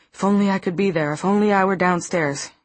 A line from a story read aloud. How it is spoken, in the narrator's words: he exclaimed